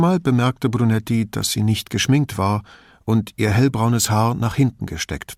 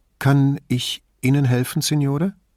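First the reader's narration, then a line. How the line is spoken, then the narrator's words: Hesitant female question. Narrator (German): fragte sie ihn so zögernd, als sei sie diejenige, die Rat suchte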